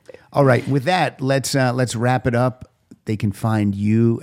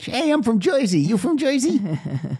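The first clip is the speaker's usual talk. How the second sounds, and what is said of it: Joe Piscopo New Jersey accent impression. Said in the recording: “like Joe Piscopo in that Saturday Night Live sketch ... I recognize a New Jersey accent when I hear one”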